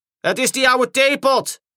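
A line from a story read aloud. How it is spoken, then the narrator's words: Called out. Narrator (Dutch): riep Diesel 10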